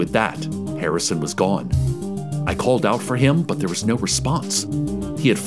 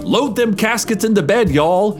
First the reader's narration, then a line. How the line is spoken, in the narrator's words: he shouted